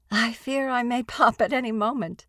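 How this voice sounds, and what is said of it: Elderly woman's lilting voice. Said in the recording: “a voice with a geriatric lilt”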